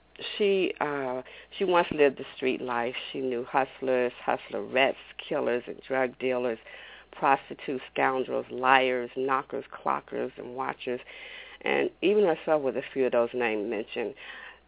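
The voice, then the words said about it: Sore-throated voice, cracking. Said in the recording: “my throat is still a little sore. So if you hear my voice cracking or going in and out”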